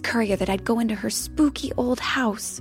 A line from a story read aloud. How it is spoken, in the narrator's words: Molly muttered to herself